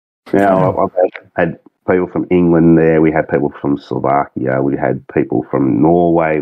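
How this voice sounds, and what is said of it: Australian accent. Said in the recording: “this bloke from down under ... my accent was that. Too heavy ... you've got a good Aussie accent, mate. You really do.”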